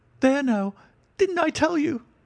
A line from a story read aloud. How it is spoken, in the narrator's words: cried the poor little man